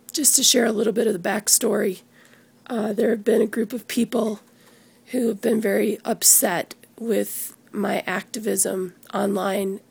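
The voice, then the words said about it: Strained, worn-out voice. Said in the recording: “my voice is pretty trashed”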